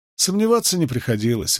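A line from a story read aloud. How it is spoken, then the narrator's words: Rather dry. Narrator (Russian): голос Фейли прозвучал довольно сухо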